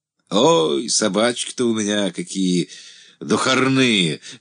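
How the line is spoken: Laughing. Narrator (Russian): засмеялся

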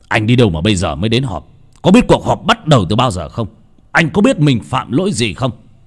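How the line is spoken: Almost shouting, scolding. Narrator (Vietnamese): Ông nói như quát

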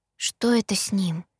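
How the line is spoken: Timid, fearful question. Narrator (Russian): робко уточнила я, боясь сказать что-то не то

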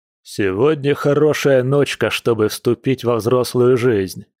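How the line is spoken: Loud, brash. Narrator (Russian): громко сказал наглец

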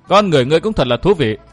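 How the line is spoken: Amused laughing voice. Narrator (Vietnamese): Tiểu Lục Lâm Tử không nhịn nổi lại bật cười nói

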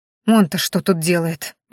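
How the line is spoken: Displeased grumble. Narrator (Russian): недовольно пробурчала Маяре

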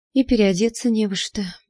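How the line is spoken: Sigh. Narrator (Russian): вздохнула я

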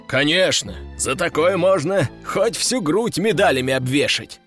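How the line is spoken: Laughing loudly. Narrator (Russian): расхохотался майор

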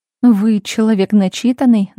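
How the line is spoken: Mocking tone. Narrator (Russian): насмешливо проговорила Марина

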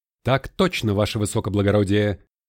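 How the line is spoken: Crisp dashing bark. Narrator (Russian): Молодцевато рявкнул подпоручик

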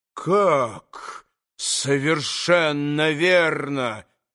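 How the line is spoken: Restrained menacing question. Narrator (Russian): переспросил Иван Федорович, с усилием сдерживая себя

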